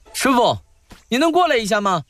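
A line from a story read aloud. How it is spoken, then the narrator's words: Shouting. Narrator (Chinese): 一人朝一石大喊着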